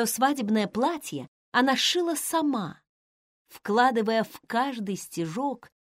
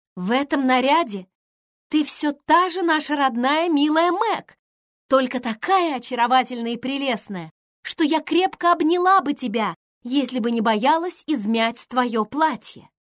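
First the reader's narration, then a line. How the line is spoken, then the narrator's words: Admiring exclamation. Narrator (Russian): воскликнула Эмми, с восхищением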